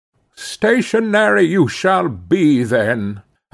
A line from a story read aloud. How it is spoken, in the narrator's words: I cried, now losing all patience, fairly flying into a passion